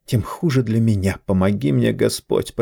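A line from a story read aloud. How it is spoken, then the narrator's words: Muttered. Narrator (Russian): пробормотала она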